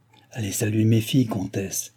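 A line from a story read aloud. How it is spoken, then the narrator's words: Quiet, hushed. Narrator (French): dit tout bas le roi à Madame du Barry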